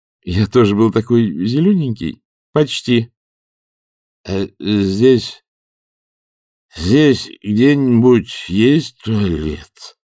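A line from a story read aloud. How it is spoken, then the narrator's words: Slurred drunken mumble. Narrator (Russian): промямлил их груз непослушными губами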